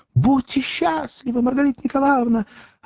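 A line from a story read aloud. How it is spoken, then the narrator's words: Shouted. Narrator (Russian): закричала Маргарите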